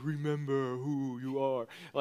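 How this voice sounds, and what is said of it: Poor imitation of Mufasa's voice. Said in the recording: “Mufasa in the clouds showing up to Simba ... that was a terrible impression”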